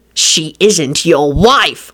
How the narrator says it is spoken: Lupin snarled

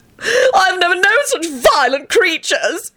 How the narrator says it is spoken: he screamed

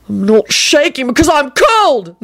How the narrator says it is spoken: Neville shouted wildly

